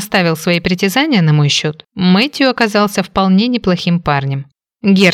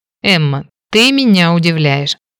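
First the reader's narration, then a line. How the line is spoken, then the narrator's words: Amused snort. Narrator (Russian): хмыкнул констебль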